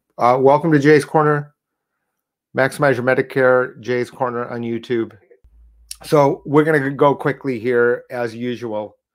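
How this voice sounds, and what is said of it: Stuffy, sick-sounding voice. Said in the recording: “You can hear I've got a cold.”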